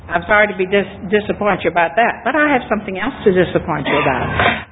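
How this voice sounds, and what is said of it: American Virginia accent. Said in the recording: “I don't have any Texas accent at all. I grew up in Virginia ... the way I speak comes from Virginia”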